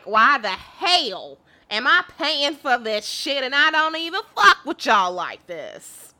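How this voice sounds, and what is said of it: Imitates another person's voice. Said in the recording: “That's my impression of Janice. ... I just figured that that might be his voice.”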